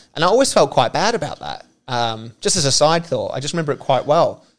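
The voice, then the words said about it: Australian accent. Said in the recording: “your wonderful Australian accent”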